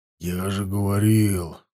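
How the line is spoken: Whisper. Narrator (Russian): зашептал Бьяр

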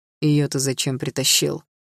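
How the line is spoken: Growl, father. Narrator (Russian): рыкнул отец

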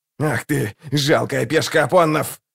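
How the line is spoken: Growling. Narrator (Russian): зарычал Локон

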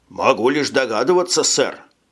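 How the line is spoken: Plain. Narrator (Russian): ответил Марсель

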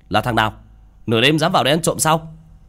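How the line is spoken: Shouting angrily. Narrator (Vietnamese): miệng quát lên

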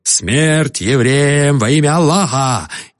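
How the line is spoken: Roaring. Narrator (Russian): один взревел

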